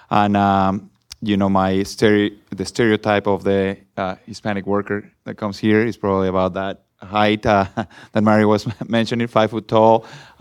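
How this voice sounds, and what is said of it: Mexican Spanish accent. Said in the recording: “I like your accent ... where are you from? I am from Mexico”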